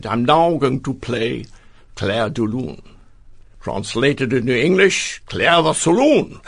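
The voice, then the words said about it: Victor Borge impression, Danish accent. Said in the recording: “Clair de Lune with his Danish accent ... Very good imitation of his voice”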